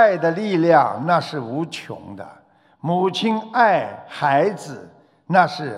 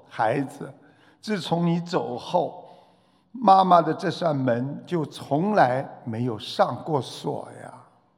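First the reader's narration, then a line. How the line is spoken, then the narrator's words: Mother speaking through tears. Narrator (Chinese): 母亲哭泣着说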